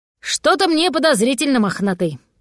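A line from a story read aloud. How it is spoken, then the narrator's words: Grumbling. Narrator (Russian): проворчал голос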